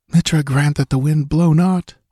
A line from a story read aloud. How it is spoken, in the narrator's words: Valeria breathed